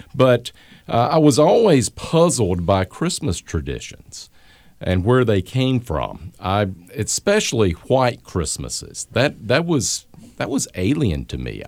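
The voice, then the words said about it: Southern American Gulf Coast accent. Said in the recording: “I grew up 75 miles north of the Gulf of Mexico, as you can probably tell from my accent.”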